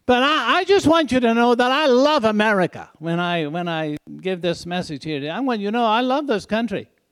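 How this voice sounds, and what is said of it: Speaks with a foreign accent. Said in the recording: “People say, you have an accent.”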